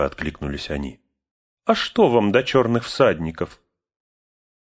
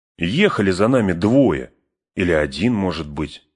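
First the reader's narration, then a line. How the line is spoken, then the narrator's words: Plain. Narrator (Russian): сказал Пин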